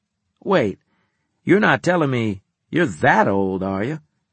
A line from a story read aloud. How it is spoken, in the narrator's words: He chuckled